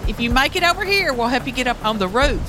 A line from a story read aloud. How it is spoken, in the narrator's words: One of them hollered